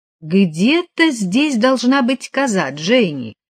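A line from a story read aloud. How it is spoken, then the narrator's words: Said very cheerfully. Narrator (Russian): очень весело сказал он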